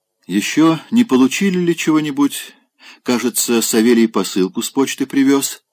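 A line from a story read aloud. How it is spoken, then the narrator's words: Plain question. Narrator (Russian): спросила она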